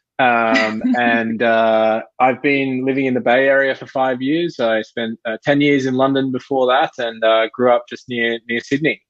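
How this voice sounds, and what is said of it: Australian accent. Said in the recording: “I am Australian, so you'll detect a different accent.”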